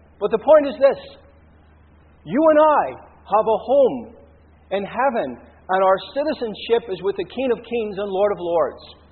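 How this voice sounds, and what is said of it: Irish accent. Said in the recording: “even though I'm Irish ... my accent isn't Australian”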